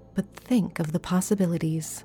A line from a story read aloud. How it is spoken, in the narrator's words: my aunt said dreamily